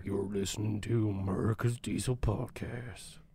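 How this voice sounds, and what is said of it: Sam Elliott impression. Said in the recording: “Sam Elliott's like, hey guys, I noticed you were doing an impression of me. It's not bad, but I feel like I could do better. ... That sounded like shit.”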